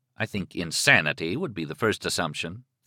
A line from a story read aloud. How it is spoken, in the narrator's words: Thad said dryly